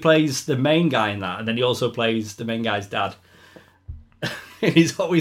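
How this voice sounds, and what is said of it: Usual voice. Nothing is said of it.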